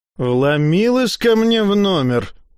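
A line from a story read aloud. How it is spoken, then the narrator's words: Grumbling. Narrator (Russian): проворчала Бруно Траверн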